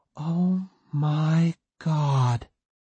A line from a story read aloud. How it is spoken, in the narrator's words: Courtney breathed, dumbfounded